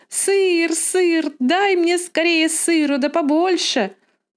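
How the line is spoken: Sudden shout. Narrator (Russian): Она сразу закричала

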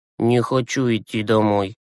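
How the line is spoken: Gloomy mutter. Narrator (Russian): сумрачно буркнул Юрасик

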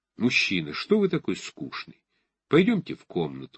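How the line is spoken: Low voice. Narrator (Russian): сказала она низким голосом

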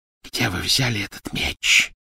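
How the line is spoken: Hiss. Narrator (Russian): прошипела она

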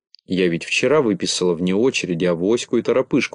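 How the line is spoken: Plain. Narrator (Russian): ответила Медуница

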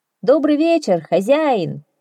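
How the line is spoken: Shout. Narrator (Russian): прокричал он

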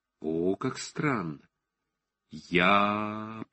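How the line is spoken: Slow drawn-out wonder. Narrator (Russian): протянул он медленно, вникая всем сознанием в этот звук

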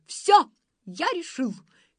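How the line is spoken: Shouted. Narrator (Russian): крикнул он

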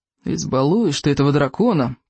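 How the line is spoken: Grumbling. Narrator (Russian): проворчал Рыбьенок

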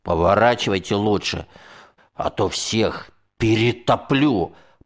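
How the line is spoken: Furious, through gritted teeth. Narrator (Russian): процедил сквозь зубы я со всем злом, какое скопилось во мне за эту проклятую ночь

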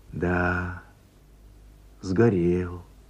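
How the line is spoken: Mournful sigh. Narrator (Russian): вздохнула, словно по живому существу, тетя Оля

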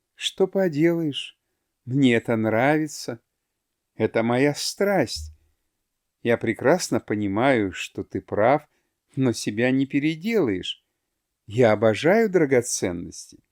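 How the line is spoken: Soft smiling repetition. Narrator (Russian): тихонько улыбалась и повторяла

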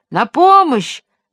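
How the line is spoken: Shouting. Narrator (Russian): закричал джип

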